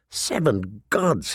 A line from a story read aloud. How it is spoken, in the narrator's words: he murmured